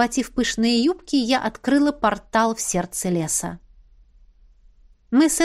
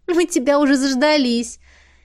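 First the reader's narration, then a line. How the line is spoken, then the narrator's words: Giggling. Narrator (Russian): хихикнула стоящая неподалеку Беата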